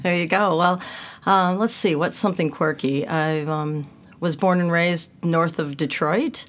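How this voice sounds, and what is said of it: Non-Australian accent. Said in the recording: “Can you tell by my accent that I'm not from Australia? ... We can.”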